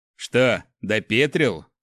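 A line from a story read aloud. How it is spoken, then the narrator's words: Smirking snort. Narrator (Russian): хмыкнул Иль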